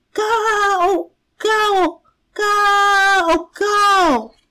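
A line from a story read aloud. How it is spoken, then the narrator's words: Urgent, astonished shouting. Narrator (Chinese): 妈妈和哥哥姐姐们顿时惊呆了 急切地大声呼喊了起来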